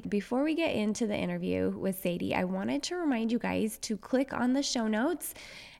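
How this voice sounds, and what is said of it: Slightly raspy, hoarse voice. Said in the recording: “I lost my voice a little bit this week, so it's a little bit raspy.”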